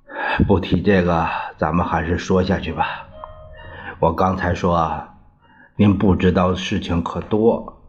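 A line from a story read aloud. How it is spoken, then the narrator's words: Sighing. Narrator (Chinese): 张学良叹了一口气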